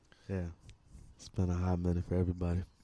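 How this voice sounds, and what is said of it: Smooth late-night radio voice. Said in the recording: “radio voice ... Late night. Yeah. Jazz. ... Smooth tones ... He's got a voice for radio”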